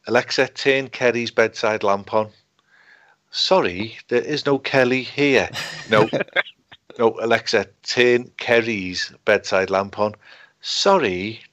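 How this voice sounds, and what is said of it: Scouse accent. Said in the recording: “Alexa doesn't get the Scouse accent.”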